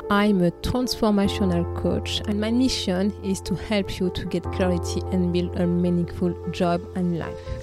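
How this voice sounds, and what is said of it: French accent. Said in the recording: “I am a French woman living in the UK in London. Perhaps you guess it with my wonderful French accent.”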